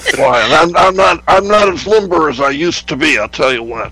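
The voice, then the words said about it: Hoarse, rough, strained voice. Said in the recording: “pardon my voice. I have just gotten over having the flu ... I feel much better than I sound. This is because of all the coughing and hacking, and it's my voice is just like shot to hell”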